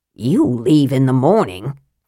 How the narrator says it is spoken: Flint muttered

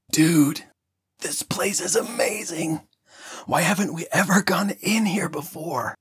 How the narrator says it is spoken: In an excited whisper, he said

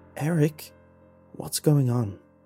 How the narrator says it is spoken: He asked, his voice trembling

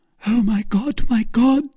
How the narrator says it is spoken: cried Madame Bonacieux

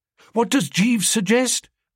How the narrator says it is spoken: asked Biffy eagerly

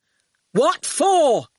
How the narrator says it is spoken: shouted Archer

